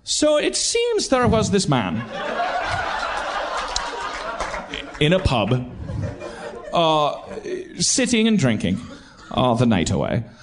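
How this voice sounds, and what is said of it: Put-on Irish accent. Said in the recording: “I have to use an Irish accent to do it.”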